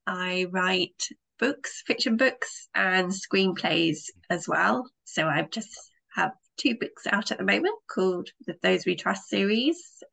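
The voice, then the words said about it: British accent. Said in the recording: “As you can guess from my accent, I'm a British writer.”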